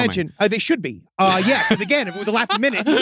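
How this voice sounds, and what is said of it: Usual voice. Nothing is said of it.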